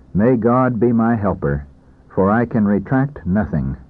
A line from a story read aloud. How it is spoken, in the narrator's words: the doctor himself said calmly